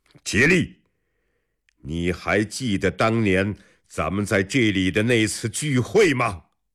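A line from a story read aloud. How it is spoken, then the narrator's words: Loud voice. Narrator (Chinese): 李世民马鞭一指汴桥，大声说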